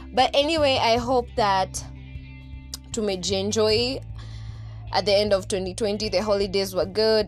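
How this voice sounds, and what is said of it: Shouting loudly. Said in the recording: “as you can hear from my voice... The reason why I'm shouting is, one, kids are still outside playing. Two, there's a bit of construction happening”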